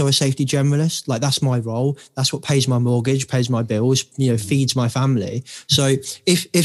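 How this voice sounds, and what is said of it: Usual voice. Nothing is said of it.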